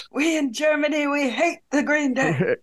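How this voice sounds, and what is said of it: Put-on German accent. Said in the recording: “That's a German accent.”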